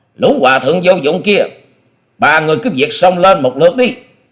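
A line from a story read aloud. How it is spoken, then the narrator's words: Loud shout. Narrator (Vietnamese): Long Điểu Kiếm Khách quát to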